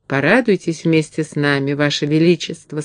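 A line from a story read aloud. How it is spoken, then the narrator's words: Plain. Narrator (Russian): сказала Энни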